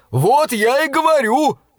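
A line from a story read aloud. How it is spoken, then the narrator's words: Joyful yell. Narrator (Russian): радостно заорал Мортон и от избытка чувств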